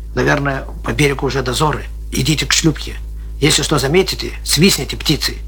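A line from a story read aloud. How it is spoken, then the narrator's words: Whisper. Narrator (Russian): Лейтенант шепотом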